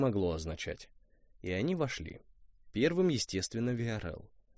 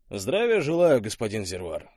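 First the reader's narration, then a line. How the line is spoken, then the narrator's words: Brisk, cheerful report. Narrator (Russian): бодро отрапортовал Виарел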